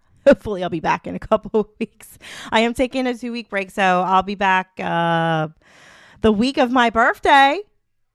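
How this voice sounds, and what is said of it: Voice fading, losing her voice. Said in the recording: “I'm losing my voice. I can feel it.”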